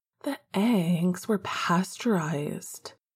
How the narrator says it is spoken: said in a seductive tone

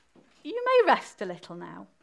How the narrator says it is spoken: The Queen said kindly

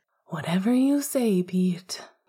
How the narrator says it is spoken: he sighed in frustration

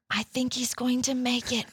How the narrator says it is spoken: Matilda whispered

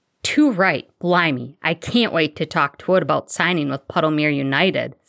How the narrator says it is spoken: Sirius exclaimed

